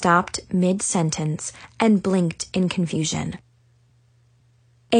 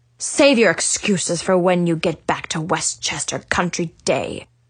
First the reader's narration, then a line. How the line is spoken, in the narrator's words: said coldly